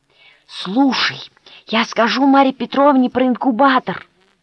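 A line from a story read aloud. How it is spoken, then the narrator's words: Hissed. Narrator (Russian): прошипел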